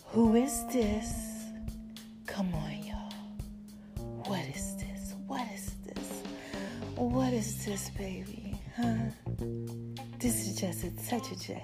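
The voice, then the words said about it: Attempted deep sexy voice. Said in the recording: “the sexy Barry White, Janet Jackson voice ... my voice is a little jacked up ... That don't even sound right”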